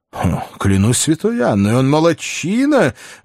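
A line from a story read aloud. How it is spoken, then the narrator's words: Older man exclaiming. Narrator (Russian): воскликнул старший незнакомец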